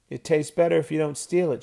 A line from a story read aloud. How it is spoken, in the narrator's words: answered